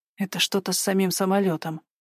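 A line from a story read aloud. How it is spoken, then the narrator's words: Ominous whisper. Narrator (Russian): шептала зловеще соседка по сиденью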